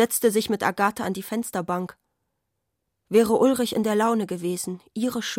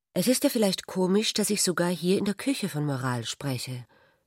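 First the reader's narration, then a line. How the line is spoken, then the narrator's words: Embarrassed. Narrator (German): sagte Ulrich verlegen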